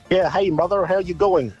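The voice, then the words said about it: Australian man's weak fake Irish accent. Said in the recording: “an Australian man doing a fake Irish accent ... You're not even trying.”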